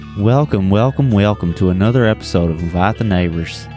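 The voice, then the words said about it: Fake accent. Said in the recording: “You didn't catch that fake accent.”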